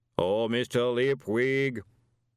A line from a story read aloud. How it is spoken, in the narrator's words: the voice boomed out across the stable yard